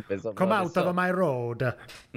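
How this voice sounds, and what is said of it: Put-on Italian accent. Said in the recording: “in an Italian accent”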